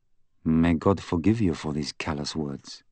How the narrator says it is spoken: he muttered

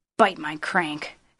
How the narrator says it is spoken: Howard muttered

